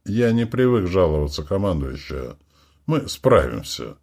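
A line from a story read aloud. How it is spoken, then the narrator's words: Calm. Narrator (Russian): спокойно сказал Букин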